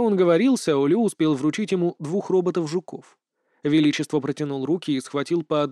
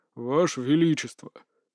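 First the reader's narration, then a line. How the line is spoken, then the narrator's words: Quiet impatient call. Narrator (Russian): Тихо, но с ноткой нетерпения в голосе позвал Сяо Лю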